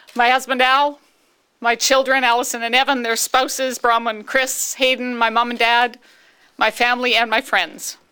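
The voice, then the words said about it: Choked-up, emotional voice. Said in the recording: “I knew that's where I'd get choked up.”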